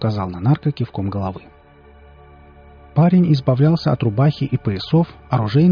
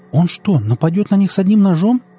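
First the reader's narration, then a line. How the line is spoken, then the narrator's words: Exclaiming. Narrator (Russian): воскликнула Лера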